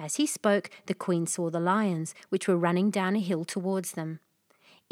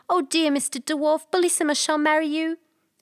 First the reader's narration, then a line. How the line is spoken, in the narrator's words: At this dreadful sight, the poor queen, who was trembling like a dove when it sees a hawk, cried out as loud as she could